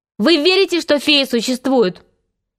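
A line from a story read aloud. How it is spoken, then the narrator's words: Shouting. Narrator (Russian): крикнул им Питер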